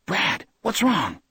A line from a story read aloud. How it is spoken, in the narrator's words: Johnny whispered from above him